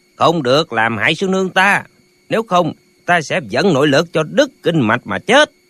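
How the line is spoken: Urgent loud shout. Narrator (Vietnamese): Lệnh Hồ Xung thấy sư nương lâm vào tình thế nguy hiểm, hắn vội quát to

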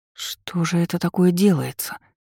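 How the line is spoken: Mumbled. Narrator (Russian): пробормотала я

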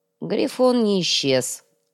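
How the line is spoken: Grim. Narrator (Russian): мрачно произнес Вилар

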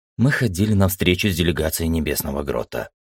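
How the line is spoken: Quiet reply. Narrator (Russian): тихо ответила Света

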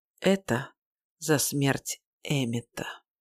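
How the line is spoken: Quiet. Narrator (Russian): тихо говорю

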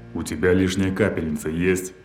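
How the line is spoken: Vicious growl. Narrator (Russian): Злобное рычание Порфирьева

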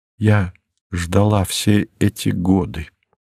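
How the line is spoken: Barely audible. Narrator (Russian): сказала она чуть слышно

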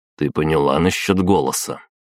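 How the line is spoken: Stern question. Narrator (Russian): строго спросил

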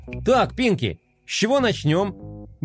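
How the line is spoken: Cheerful question. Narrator (Russian): бодро спросил Флай

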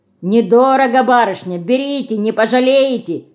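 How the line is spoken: Loud shouting. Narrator (Russian): Громко кричит он

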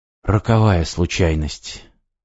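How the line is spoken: Hoarse voice. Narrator (Russian): снова сказал Иван севшим голосом

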